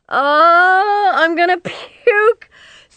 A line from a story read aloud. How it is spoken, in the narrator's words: Cynthia screamed, but she was laughing, too